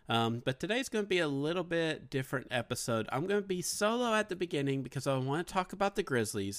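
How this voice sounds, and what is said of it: Slightly congested, sick-sounding voice. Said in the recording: “If you can kind of hear it in my voice, I'm kind of getting over a little sinus infection too ... If I sound a little bit different, sorry”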